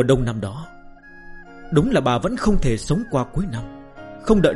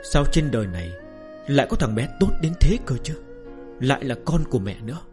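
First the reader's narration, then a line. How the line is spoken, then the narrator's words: Frail, happy murmur. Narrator (Vietnamese): Người phụ nữ ốm đau tra tấn đã lâu bỗng tràn ngập hạnh phúc, thủ thỉ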